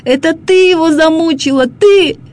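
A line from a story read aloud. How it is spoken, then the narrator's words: Desperate shout. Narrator (Russian): я не выдержал, закричал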